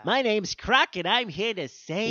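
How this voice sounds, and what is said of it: Cartoon crocodile character voice. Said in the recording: “We should bring back Croc, and I'll do his voice.”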